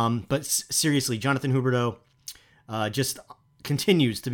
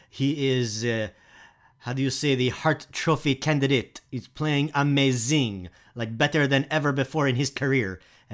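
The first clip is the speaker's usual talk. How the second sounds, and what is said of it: Put-on French accent. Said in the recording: “my French accent”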